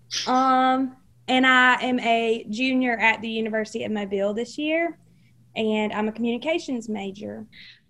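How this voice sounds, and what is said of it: Southern US Alabama accent. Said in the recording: “If you couldn't tell, she's from Alabama, everyone. ... the accent never lies.”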